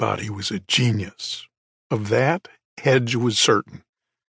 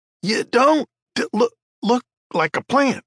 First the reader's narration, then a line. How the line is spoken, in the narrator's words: Scud stuttered